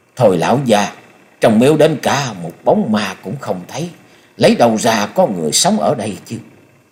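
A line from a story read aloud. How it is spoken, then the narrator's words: Grumbling, cursing mutter. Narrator (Vietnamese): Lẩm bẩm chửi đổng mấy câu, Thôi Công Đức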